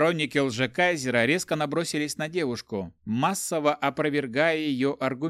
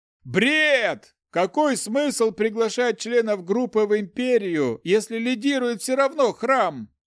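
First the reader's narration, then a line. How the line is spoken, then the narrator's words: Shouted from the audience. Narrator (Russian): закричал кто-то из зала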